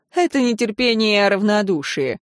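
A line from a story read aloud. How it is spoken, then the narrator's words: Snorting. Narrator (Russian): Аарон фыркнул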